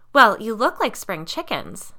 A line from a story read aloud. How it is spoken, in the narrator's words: Liz said happily